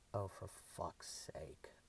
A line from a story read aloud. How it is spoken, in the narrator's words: a male voice muttered